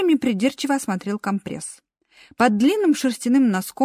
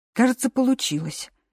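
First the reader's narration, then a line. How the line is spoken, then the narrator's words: Relieved sigh. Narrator (Russian): с облегчением вздохнул Лу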